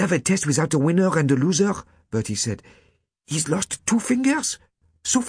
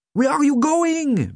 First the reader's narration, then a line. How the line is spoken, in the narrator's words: Bertie shouted